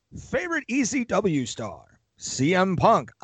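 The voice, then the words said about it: Announcer voice. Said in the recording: “my announcer voice”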